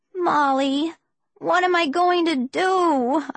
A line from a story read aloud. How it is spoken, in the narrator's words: I wailed